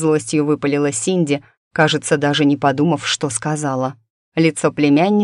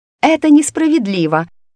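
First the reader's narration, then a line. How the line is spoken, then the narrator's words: Furious tearful shout. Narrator (Russian): Синди закричала, и в ее глазах блеснули слезы ярости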